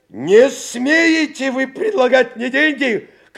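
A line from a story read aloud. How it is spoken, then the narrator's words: Shouted. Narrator (Russian): крикнул доктор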